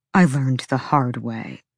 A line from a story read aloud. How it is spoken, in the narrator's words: Hunt said through his teeth